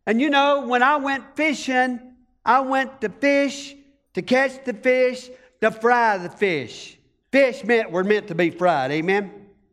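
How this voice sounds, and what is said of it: Country accent. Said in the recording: “I'm a country boy ... I got a country accent.”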